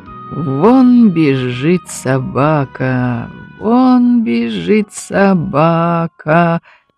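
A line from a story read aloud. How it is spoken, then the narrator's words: Rhythmic singsong muttering. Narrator (Russian): Нараспев повторял он про себя, подлаживаясь произносить слова в ритм шагам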